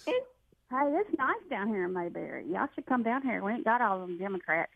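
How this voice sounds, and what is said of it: Warm Southern US accent. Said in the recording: “you two Andy Griffith Show women... It is a beautiful accent. But you all sound so friendly and so warm and so sweet... That nice southern charm?”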